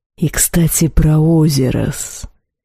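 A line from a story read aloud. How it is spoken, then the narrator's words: Hiss with a growl. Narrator (Russian): В шипении явственно послышался рык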